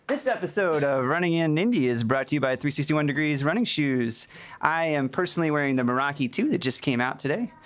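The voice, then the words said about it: Mock radio announcer voice. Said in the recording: “that's my announcer voice. That's the best I can do.”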